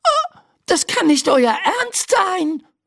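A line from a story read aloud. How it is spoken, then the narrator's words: Screaming. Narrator (German): schreit Laura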